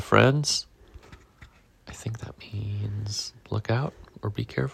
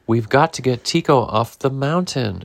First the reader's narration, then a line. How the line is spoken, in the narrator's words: exclaimed Pablo